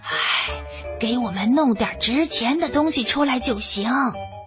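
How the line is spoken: Two thieves, quiet. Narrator (Chinese): 两个小偷小声的对小拇指说

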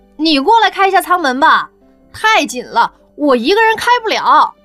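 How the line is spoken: Displeased calling out. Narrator (Chinese): 他很不满地……喊道

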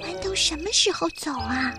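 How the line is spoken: Quiet asking. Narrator (Chinese): 苏菲小声地问妈妈

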